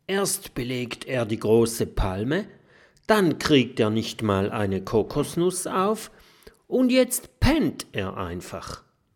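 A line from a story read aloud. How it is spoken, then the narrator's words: Whisper. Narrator (German): flüstert Mathilda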